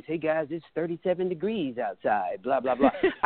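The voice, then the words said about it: Exaggerated radio announcer voice. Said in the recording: “change my voice to the radio voice.”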